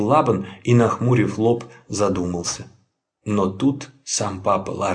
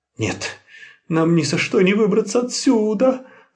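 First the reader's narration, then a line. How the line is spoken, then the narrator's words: Whimpering, two voices. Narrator (Russian): захныкали Лоттон и Линне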